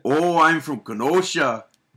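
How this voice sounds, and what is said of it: Put-on Kenosha, Wisconsin accent. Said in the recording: “Do a Kenosha accent.”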